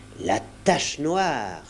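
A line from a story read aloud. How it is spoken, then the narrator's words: Exclaimed. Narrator (French): s'exclama-t-il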